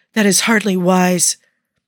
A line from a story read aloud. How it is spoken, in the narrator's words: a shocked gasp